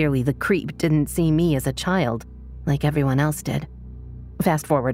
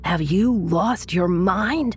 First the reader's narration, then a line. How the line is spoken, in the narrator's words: His friend screamed at him